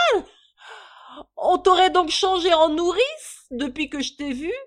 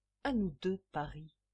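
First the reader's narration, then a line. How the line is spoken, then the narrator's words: Murmured. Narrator (French): murmura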